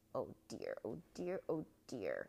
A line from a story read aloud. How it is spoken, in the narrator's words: It kept muttering in its little, gruff voice